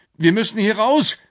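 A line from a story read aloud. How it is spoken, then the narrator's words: Calling out. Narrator (German): rief Alex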